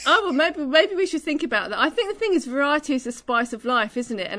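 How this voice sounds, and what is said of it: Beautiful accent. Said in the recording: “I love, love hearing your voice ... You have a beautiful accent.”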